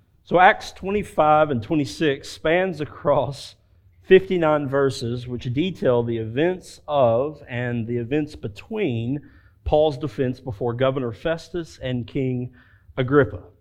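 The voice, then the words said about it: Slow Southern drawl accent. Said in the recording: “this slow southern drawl of an accent”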